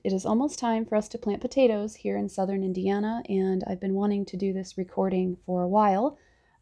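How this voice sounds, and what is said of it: Slightly scratchy voice. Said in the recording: “My voice is still a little bit scratchy. I'm recovering from a head cold”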